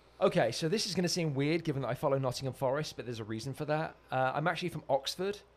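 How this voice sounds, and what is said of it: English accent. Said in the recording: “that's the accent... I love your British accent... I'm from England”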